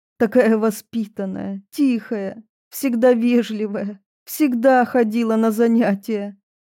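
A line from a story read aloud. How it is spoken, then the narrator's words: Sobbing, tearful woman. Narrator (Russian): всхлипывала Марфа Спартаковна, преподаватель университета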